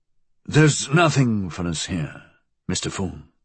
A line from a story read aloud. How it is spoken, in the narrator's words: William murmured